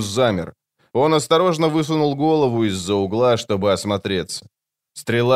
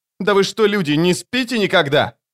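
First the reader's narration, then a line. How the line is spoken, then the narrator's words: Shouting while running. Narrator (Russian): выкрикнул на бегу Крокус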